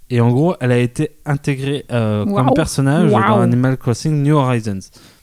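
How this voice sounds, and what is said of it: Exaggerated English accent. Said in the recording (French): “Tu noteras mon accent anglais sublime.”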